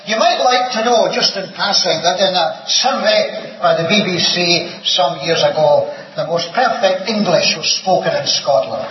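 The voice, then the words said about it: Scottish accent. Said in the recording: “You probably have got used to my Scottish accent now”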